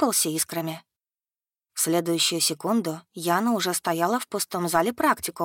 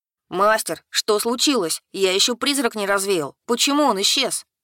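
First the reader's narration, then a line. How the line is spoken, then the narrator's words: Indignant howl. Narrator (Russian): Возмущенно взвыл Картон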